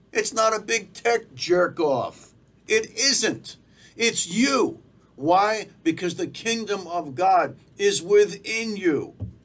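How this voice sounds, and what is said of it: Fervent preacher-like delivery. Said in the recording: “do I sound like a preacher?”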